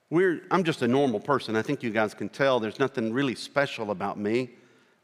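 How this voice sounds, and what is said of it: American country accent. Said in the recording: “I have a country accent.”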